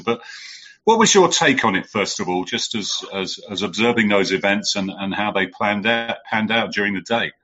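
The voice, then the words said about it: Non-American accent. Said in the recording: “I'm not American, as you can probably tell by the accent.”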